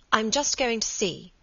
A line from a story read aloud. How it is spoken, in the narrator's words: said Margaret